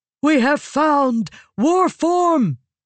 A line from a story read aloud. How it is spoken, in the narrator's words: Eshenai shouted to Joy, an inviting rhythm, not an angry one